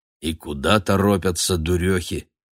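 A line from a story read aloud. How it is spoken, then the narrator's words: Old man grumbling. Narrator (Russian): ворчал Матвей, уже ставший к тому времени дедушкой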